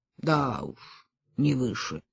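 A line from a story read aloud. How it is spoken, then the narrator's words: Mutter. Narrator (Russian): пробормотал Кальман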